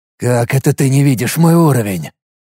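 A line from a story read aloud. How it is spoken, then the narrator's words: Irritated hiss. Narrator (Russian): прошипел я раздраженно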